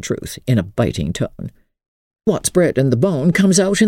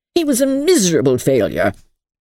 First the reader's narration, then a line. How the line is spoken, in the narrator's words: snapped Aunt Ruth